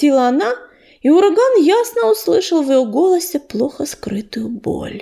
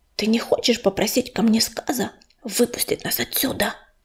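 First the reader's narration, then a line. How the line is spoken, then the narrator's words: Hissed into ear. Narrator (Russian): прошипел грачик на ухо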